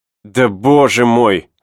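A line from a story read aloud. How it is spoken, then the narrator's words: Irritated. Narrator (Russian): раздраженно произнес Рики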